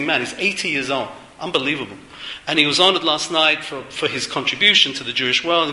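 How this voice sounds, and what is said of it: British accent. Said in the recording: “people complain to me, I've still got a British accent.”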